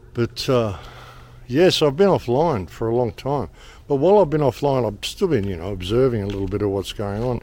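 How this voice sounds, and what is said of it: Slightly hoarse, laryngitis-affected voice. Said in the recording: “My voice is a little funny. I've had a little bit of kind of a laryngitis-y thing going on. My throat feels a little funny.”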